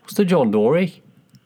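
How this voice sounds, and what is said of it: Attempted Australian accent, sounding Irish. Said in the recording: “That sounded Irish then. ... I always go into Irish when I'm trying to do Australian. ... we're going to butcher these accents”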